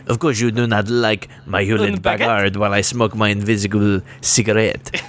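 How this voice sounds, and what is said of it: Put-on French accent. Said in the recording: “you French accent. ... Oui, oui, something, something.”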